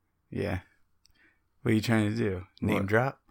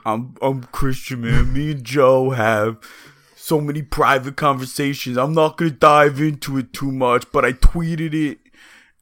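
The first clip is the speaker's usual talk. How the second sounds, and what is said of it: Imitates another person's voice, poorly. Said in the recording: “that's not even a good impression of me... it's horrendous”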